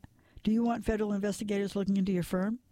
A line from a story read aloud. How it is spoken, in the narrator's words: Matt laughed